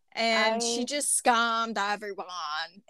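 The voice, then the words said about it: Imitates another person's voice. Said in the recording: “that's my Anna Delvey impression.”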